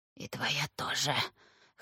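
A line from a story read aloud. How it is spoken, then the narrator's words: Hoarse. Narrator (Russian): хрипло сказала Катерина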